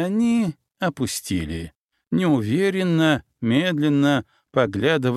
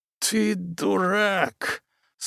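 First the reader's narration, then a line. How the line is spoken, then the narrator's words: Hissed through teeth, pained, angry. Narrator (Russian): сквозь зубы, боль и злость прошипел Том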